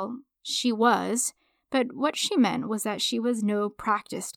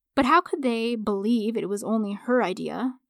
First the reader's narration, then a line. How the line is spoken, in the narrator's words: the man asked